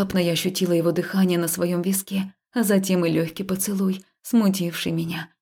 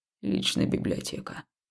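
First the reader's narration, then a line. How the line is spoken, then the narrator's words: Quiet answer. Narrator (Russian): тихо ответил Хаул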